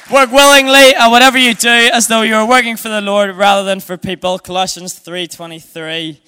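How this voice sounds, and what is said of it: Speaks with a noticeable accent. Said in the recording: “I'm getting grief for my accent tonight.”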